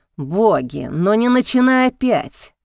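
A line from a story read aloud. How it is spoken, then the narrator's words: Groaning. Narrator (Russian): застонал Июль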